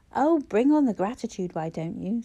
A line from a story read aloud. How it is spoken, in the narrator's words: said Clara sharply